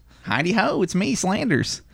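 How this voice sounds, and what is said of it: Ned Flanders cartoon voice impression. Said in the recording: “my Flanders impression ... Pretty bad ... it was okay. I'll give it a 5”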